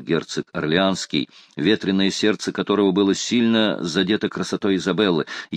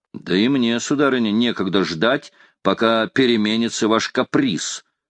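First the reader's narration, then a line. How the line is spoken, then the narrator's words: Plain. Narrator (Russian): сказал герцог Карл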